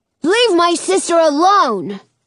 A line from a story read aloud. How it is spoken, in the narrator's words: Jonah yells